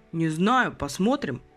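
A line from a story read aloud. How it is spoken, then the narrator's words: Grumbling. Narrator (Russian): проворчал Степаныч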